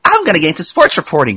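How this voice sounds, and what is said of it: Bad, very high-pitched voice imitation. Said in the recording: “That's a bad impression of you... that's the highest I've ever heard anyone imitate my voice to be”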